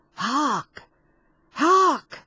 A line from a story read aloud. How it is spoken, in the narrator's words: cried he to his comrades